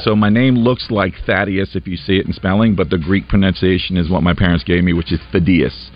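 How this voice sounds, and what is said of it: Noticeable unfamiliar accent. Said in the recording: “Your accent lost me there for a second. I haven't met too many people that played at Harding that that sound like you”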